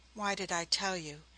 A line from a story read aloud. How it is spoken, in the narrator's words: she murmured back with subtler poetry